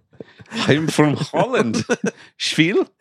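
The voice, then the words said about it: Mock Danish accent. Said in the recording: “That's like a Denmark a little accent you got there.”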